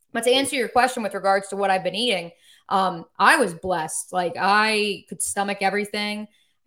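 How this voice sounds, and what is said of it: New York, New Jersey accent. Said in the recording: “Apparently my New York, New Jersey accent comes out a little bit more now”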